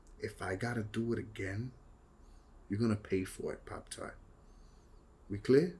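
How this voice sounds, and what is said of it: Bad tough-guy New York accent. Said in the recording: “Some tough guy talk and a bad New York accent?”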